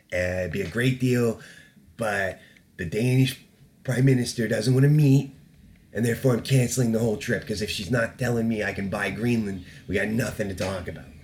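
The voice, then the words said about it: Bad Donald Trump impression. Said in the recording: “That trailed off into a very bad Donald Trump impression.”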